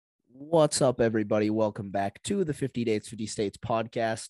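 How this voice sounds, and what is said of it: Hoarse, nearly lost voice. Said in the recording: “my voice is gone. Uh, I'm kind of under the weather. ... my voice is still gone.”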